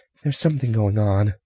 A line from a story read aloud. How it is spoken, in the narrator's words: a woman passenger said nervously